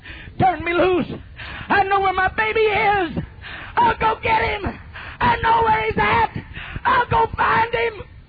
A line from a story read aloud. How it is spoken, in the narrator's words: She screamed